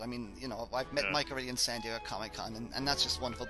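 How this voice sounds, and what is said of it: Irish accent. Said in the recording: “You've got an Irish accent.”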